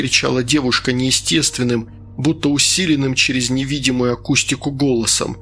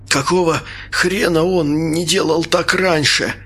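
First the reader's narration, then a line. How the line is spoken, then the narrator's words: Coughing, strained. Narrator (Russian): кашляя выдавил я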